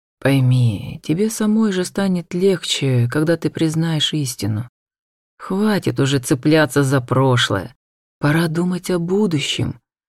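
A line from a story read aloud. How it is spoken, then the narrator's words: Ardent close whisper. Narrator (Russian): горячо шептал он, наклонившись к моему уху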